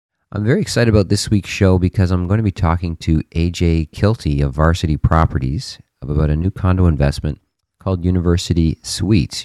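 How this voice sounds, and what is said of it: Strange-sounding voice from a cold. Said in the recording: “my voice sounds a little strange this week. No, I did not take up a three-pack-a-day smoking habit. I'm just fighting off a little cold here”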